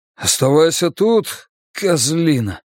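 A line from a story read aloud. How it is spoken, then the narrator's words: Trembling voice. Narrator (Russian): дрогнувшим голосом сказал Явуз Нивану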